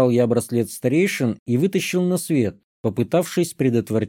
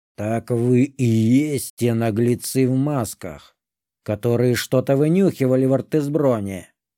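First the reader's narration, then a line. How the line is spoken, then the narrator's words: Dragon's roar. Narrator (Russian): Рыкнул дракон с зеленой чешуей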